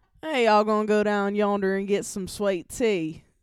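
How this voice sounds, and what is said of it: Attempted Southern American accent. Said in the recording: “southern um fuck, why can't I just drew a blank on a southern accent ... did I even do that well? Like no.”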